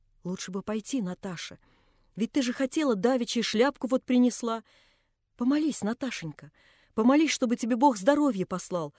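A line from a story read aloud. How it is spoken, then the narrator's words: Timid coaxing. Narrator (Russian): уговаривала Анна Андреевна, робко смотря на дочь, как будто боялась ее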